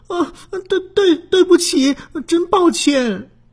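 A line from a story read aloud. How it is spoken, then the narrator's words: Crying after scolding. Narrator (Chinese): 小红被训斥了，她一边哭，说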